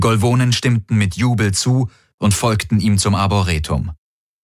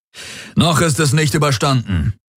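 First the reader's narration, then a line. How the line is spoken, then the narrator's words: Called out. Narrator (German): rief Darius seinen Kriegern zu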